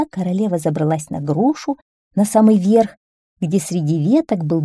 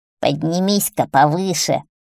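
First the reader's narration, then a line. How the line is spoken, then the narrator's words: Witch barking harshly. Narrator (Russian): рявкнула колдунья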